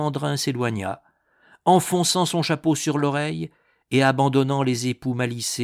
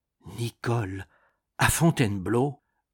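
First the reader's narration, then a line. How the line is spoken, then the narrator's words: Murmured. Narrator (French): murmurait Thérèse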